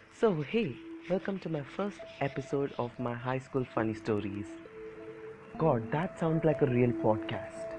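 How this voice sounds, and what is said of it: Indian-accented English. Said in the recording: “that Indian accent ... my Indian accent”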